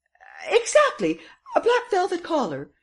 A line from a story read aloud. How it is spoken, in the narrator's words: exclaimed Madame Renaud triumphantly